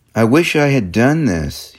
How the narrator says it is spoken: says, sadly

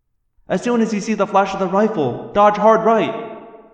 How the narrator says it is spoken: I yelled

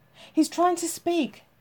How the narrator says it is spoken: Jane cried

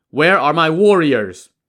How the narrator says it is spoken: The priest called out

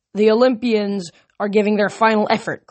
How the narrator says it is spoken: Kronos laughed

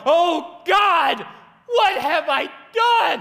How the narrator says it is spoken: I went cold from top to bottom, and I let out a mournful and loud yell

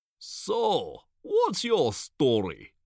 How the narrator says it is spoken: asks in a thick Eastern European accent

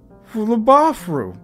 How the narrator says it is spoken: sobbed Ken, his nose bubbling snot in despair

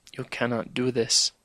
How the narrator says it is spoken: whispered

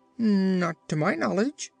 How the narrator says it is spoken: said he

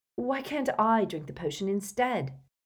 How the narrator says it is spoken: asked Harry desperately

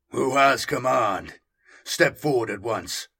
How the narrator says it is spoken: From under his hood, the monster boomed

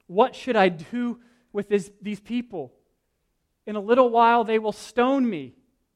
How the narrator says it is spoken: Moses cried out to the Lord

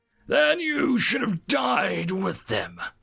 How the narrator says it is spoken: Darth Hominus roared

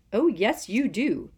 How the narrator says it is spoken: said Professor McGonagall irritably

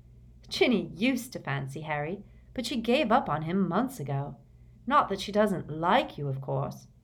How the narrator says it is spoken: she added kindly

